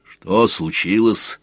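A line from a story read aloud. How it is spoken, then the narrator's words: Quiet, serious question. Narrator (Russian): спросил отец Грук столь же негромко, посерьезнев лицом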